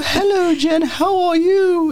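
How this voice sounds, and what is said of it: Put-on old aristocratic English grandmother accent. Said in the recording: “You sound like Santa. ... Santa Claus is a deeper voice. This is more like the grandma in the movie Hook ... she's like a million years older than she actually is ... I've been practicing my English accent ... Terrible. ... I want to sound like one of those like old, like aristocratic grandmothers.”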